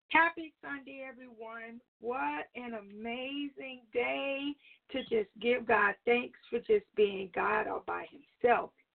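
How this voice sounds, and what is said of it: Slightly crackly voice. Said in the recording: “My voice has been a little crackly today. I've been a little bit under the weather”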